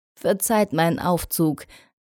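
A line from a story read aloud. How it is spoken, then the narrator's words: Laughing. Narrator (German): sagte lachend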